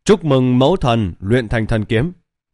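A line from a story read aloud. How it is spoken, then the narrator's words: Loud chorus of voices. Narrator (Vietnamese): Các thần linh ám dạ thần hệ còn lại lớn tiếng kêu lên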